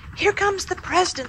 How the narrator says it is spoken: squealed Muffy

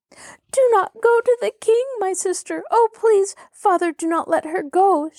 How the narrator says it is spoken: she cried hysterically

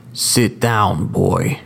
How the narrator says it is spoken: growled the judge

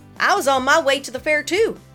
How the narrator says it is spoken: Desi said

